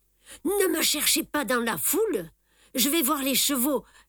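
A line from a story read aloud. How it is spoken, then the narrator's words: Joyful exclamation. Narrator (French): s'exclame joyeusement Simon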